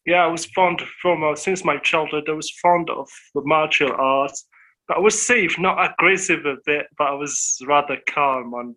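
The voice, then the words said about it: Speaks English with an accent. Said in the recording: “I'm sorry if you can hear my accent ... I can hear your accent”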